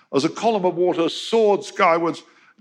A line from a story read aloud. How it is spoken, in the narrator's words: Young cried exultantly over the radio